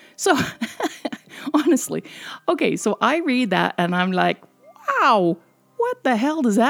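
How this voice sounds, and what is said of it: Usual voice. Nothing is said of it.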